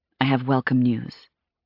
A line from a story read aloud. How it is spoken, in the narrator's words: whispered